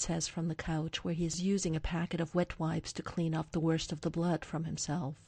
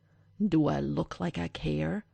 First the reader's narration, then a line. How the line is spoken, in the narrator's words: Derek snarls at Marcus over his shoulder